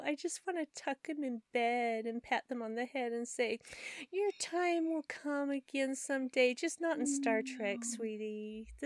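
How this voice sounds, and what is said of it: Sarcastic mock-sweet tone. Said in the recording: “I was being sarcastic, really.”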